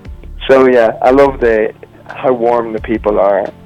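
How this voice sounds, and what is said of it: Northern US-sounding accent. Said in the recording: “My accent makes me sound like I'm a Northerner”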